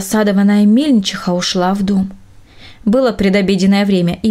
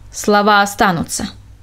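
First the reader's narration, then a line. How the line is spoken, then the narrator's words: Sharp interruption. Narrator (Russian): резко перебил он ее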